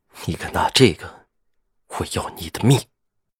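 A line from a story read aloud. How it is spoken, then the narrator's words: Chillingly cold voice. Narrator (Chinese): 声音阴冷的让人不寒而栗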